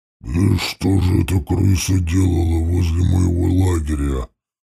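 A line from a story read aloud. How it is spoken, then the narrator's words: Muttered under breath. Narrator (Russian): пробурчал себе под нос дьявол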